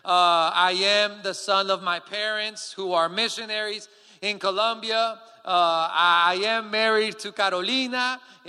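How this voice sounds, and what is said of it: Colombian Spanish accent. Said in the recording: “I am from Colombia, and so hence the accent is a little bit weird.”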